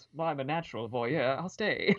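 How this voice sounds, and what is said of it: Thick put-on British accent. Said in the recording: “in a thick British accent”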